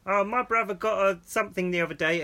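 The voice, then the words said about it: Imitates a kid's voice. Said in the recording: “that's a well funny impression”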